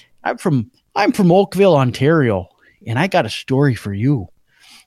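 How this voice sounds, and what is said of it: Poor put-on Canadian accent. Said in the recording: “how terrible my Canadian accent is”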